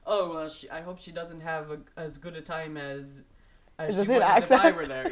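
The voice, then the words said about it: Poor imitation of another person's accent. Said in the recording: “That's my attempt at Jose's accent ... That was terrible ... It was bad ... I'm not good at accents”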